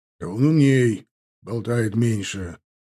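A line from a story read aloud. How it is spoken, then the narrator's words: Grumbled. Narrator (Russian): буркнул Чанов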